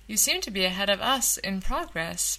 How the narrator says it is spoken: Beth said

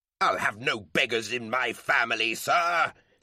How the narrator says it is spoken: his father roared

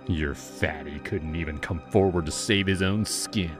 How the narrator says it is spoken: he sneered

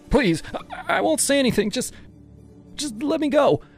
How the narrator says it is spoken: I begged, my voice cracking

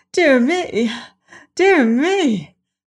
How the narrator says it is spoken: Miss Cuttenclip exclaimed

